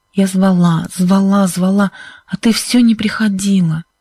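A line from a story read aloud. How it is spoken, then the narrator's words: Hoarse. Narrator (Russian): сказала Сьюзен хриплым голосом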